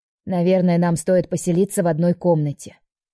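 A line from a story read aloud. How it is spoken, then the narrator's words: Grandmother's clipped commanding tone. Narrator (Russian): командирским тоном отчеканила бабушка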